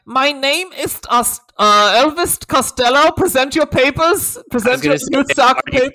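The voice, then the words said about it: Harsh mock Nazi character voice. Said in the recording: “Scouse accent ... Are you doing a Nazi voice on purpose?”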